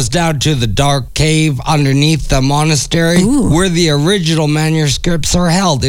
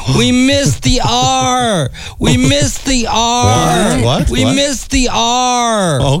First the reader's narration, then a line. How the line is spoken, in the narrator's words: wailing